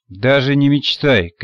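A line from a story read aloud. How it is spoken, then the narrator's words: Categorical booming. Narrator (Russian): категорично прогудел Селиванов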